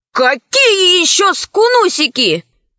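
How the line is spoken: Angry exclamation. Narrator (Russian): воскликнул в сердцах Пашка

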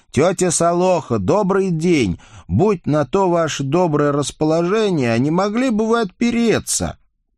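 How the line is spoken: Loud shout. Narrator (Russian): Николя громко прокричал

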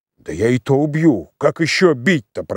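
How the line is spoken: Grumbling under breath. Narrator (Russian): проворчал себе под нос Кондрашка

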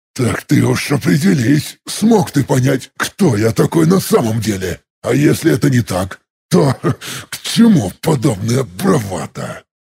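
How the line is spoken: Angry hiss. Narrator (Russian): Зло прошипел я

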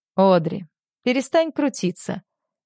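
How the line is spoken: Calm. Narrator (Russian): спокойно говорит он

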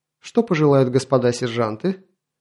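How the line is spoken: Pleased grunt. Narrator (Russian): Булыжник довольно хмыкнул

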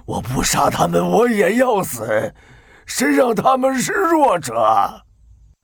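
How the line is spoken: Furious roar. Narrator (Chinese): 变通天……摔得口吐鲜血，下巴都歪了……狂吼

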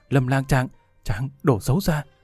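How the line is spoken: Flustered, frightened. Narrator (Vietnamese): Tiêu Thanh Tuyền toàn thân mềm nhũn ... trong lòng phát hoảng

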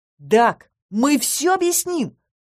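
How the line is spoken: Exclamation. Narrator (Russian): воскликнул Кайл

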